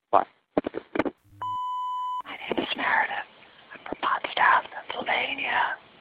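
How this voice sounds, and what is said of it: Whispering. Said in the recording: “which is why I'm whispering.”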